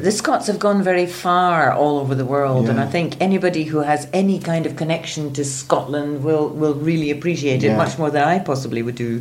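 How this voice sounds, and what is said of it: Scottish accent, lightly rolled R's. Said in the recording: “The Scottish accent is basically the R sound... So we do roll the R's a little.”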